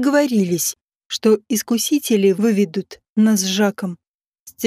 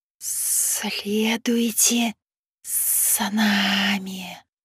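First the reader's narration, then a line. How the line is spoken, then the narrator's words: Hissing tempters. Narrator (Russian): прошипели искусители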